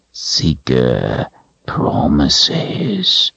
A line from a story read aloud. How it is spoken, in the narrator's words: he said in a low growl